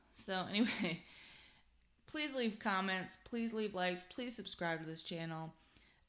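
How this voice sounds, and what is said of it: Southern US accent. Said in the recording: “That's my Tennessee vernacular coming into play. ... I've got a Yankee attitude and a Southern accent.”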